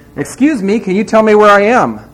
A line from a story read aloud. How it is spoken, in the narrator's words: shouts